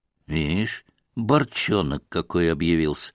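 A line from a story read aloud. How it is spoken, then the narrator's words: Muttered. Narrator (Russian): бормотал Григорий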